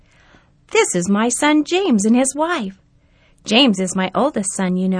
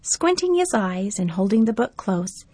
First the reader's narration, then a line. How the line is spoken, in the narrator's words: Grandpa murmured